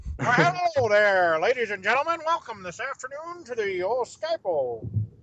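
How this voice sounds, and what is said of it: Old-timey announcer voice. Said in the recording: “You sound kind of like an old-timey announcer guy a little bit.”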